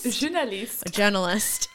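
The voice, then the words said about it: Pretentious mock French accent. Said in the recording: “offensive French accents. I don't think that was even French. I think that was just, you know, pretentious.”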